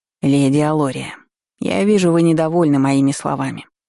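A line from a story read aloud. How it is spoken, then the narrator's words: Sighing. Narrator (Russian): вздохнул хранитель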